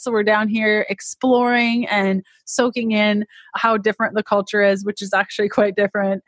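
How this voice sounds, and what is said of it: Thick Canadian accent. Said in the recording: “i'm canadian if you can't tell by my crazy accent, which I'm told is quite thick”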